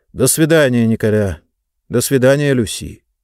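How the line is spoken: Muttered. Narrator (Russian): На прощание он буркнул

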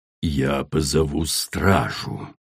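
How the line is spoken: Hissed. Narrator (Russian): прошипела королева

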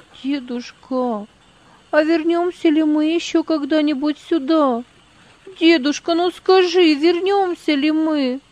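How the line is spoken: Sobbing girl. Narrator (Russian): из груди Магдалины вырывались рыдания

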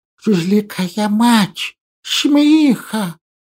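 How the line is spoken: Noisy exhale. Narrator (Russian): Шумно выдохнул

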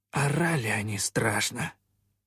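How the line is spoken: Sighing sailor. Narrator (Russian): вздохнул кто-то из матросов

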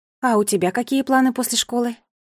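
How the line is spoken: Plain. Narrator (Russian): спросила мама

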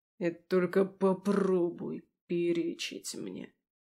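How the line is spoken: Quiet and menacing, husband. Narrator (Russian): тихо и страшно сказал супруг

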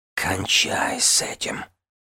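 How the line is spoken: Heated whisper. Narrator (Russian): жарко прошептал Тамин

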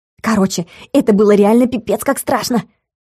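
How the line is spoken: Feverishly excited exclamation. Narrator (Russian): воскликнула Галка, но Влад вновь уловил в ее тоне лишь нездоровое возбуждение от происходящего

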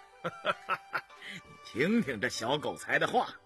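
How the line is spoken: Laughing, comforting. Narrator (Chinese): 胤禛笑慰乌斯道

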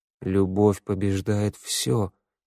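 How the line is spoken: Muttered. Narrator (Russian): пробормотал Теодор

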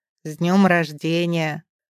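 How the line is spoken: Deep bass, burly man. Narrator (Russian): бросает вслед басом громила

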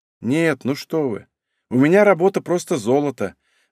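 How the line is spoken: Sighing. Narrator (Russian): вздохнула Варя

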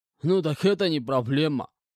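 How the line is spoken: Snorting reply, man. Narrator (Russian): хмыкнув, ответил мужчина с противоположной лавки

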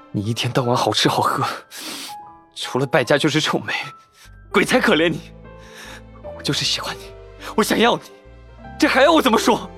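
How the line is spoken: Through gritted teeth. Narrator (Chinese): 程潜咬牙切齿地道

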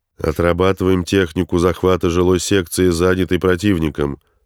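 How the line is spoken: Loud. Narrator (Russian): громко произнес он

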